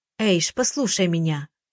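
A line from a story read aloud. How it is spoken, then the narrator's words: Forced calm, anxious. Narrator (Russian): Стараюсь говорить спокойно, но сердце колотится, как бешеное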